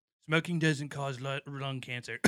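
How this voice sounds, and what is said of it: Imitates another person's voice. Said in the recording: “Can I try that impression? ... Yeah, that sounds like ... that. ... That's it. ... That's Rush.”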